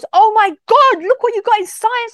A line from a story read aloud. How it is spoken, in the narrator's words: shouted